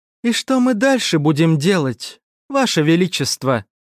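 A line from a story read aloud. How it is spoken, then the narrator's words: Plain. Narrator (Russian): спросила первая леди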